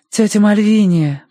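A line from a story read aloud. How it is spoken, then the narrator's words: Gentle call. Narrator (Russian): позвала она ласково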